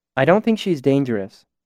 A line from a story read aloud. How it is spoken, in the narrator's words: Denna said in a normal tone behind me